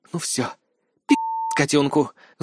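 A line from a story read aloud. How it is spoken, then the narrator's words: Vicious witch's hiss. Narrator (Russian): злобно прошипела Марва, владыка ведьмовского болота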